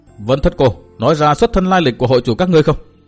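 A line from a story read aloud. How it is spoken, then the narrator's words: Shout. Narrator (Vietnamese): Từ Mã Minh quát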